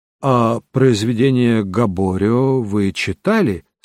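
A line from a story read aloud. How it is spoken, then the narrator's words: Plain. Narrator (Russian): спросил я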